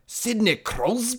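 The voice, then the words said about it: Harsh put-on British or Scottish accent. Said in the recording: “in a like really harsh British or Scottish accent”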